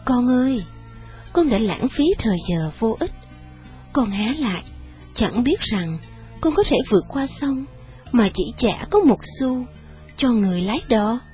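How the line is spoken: Sad master's voice. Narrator (Vietnamese): Vị tôn sư nói với một giọng buồn rầu

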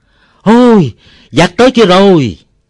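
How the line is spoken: Old man shouting loudly. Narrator (Vietnamese): Ông Bảy thét to

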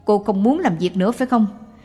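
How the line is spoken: Shouting. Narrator (Vietnamese): Người này quát

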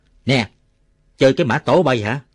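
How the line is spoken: Shouting. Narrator (Vietnamese): Chú hai quân nổi quát

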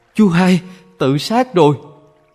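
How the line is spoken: Sudden terrified scream. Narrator (Vietnamese): bỗng dưng có người kinh hoàng thét lên

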